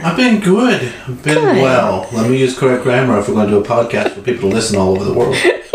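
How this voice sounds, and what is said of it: Southern American accent. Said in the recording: “The accent already makes me sound dumb ... the Southern accent”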